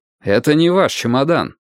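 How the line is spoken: Stern. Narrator (Russian): строго сказал я

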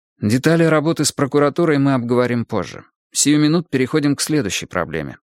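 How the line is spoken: Plain. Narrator (Russian): сказал Тригрей

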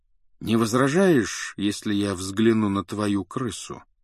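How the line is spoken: Even-voiced question. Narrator (Russian): спросил он ровным голосом

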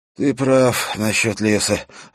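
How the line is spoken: Irritated mutter. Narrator (Russian): раздраженно пробормотал он

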